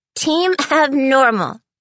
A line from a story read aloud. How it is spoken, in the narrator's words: she giggled